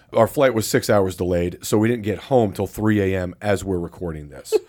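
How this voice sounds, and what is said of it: Weak, worn-out voice. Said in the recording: “I don't have much of a voice at this point, although it did come back a little bit this morning.”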